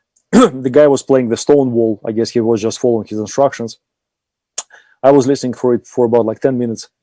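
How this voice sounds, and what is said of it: Austrian-accented English. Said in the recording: “my lovely Austrian accent”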